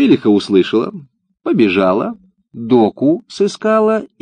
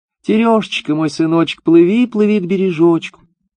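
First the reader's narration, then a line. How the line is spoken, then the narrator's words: Mother calling, thin voice. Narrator (Russian): мать, стала звать сына тоненьким голоском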